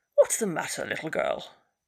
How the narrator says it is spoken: George opened his eyes sleepily and stretched himself and said

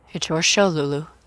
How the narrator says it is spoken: said softly

